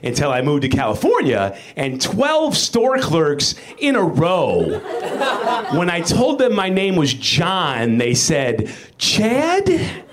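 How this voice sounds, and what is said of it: Chicago accent. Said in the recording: “this accent comes from, it's Chicago... the Chicago A sound”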